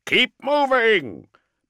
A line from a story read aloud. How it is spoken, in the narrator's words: bellowed Valafor